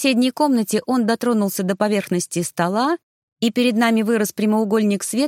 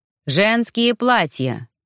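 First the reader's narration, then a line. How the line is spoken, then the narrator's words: Loud. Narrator (Russian): громко произнес Арно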